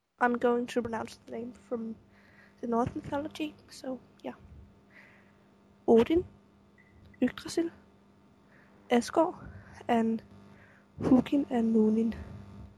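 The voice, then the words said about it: Noticeable non-native accent. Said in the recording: “you can laugh at my weird accent.”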